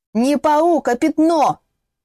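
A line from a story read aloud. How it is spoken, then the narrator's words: Yelling reply. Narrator (Russian): в ответ заорала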